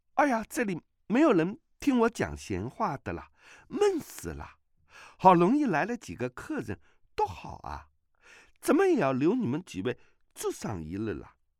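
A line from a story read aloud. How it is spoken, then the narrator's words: Laughing. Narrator (Chinese): 阿碧笑道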